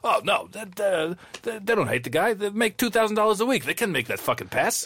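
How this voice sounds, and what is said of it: Imitates another person's voice. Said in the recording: “That's a good TR impression as well, actually. ... it's pretty good.”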